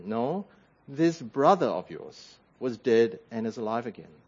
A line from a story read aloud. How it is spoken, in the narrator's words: the father gently reminds him